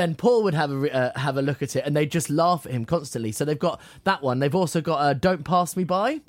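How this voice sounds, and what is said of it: Usual voice. Nothing is said of it.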